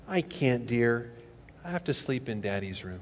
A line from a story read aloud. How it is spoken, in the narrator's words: Smiling, the mother tenderly said